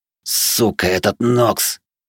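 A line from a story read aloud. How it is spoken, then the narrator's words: Vicious panting hiss. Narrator (Russian): злобно прошипел один из пыхтящих мужиков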